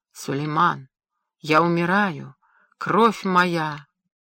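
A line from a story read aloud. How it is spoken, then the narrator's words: Whispered. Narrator (Russian): Прошептал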